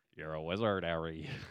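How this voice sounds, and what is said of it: Poor Hagrid impression, put-on accent. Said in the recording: “Give me a Harry Potter accent, please. ... That was horrible. ... Hagrid, the horrible. ... Hagrid does not sound like that.”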